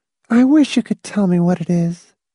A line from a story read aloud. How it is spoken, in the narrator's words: Silky said in a soft, troubled voice